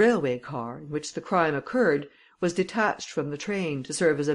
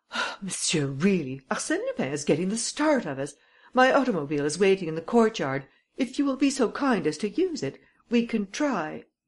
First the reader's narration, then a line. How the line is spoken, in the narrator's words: I exclaimed